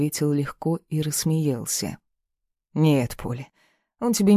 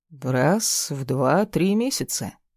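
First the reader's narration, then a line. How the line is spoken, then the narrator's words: Calm. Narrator (Russian): спокойно ответил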